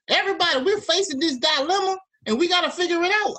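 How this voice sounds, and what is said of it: Put-on Southern drawl. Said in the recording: “I'm only going Southern slang ... You sound like my grandma right now.”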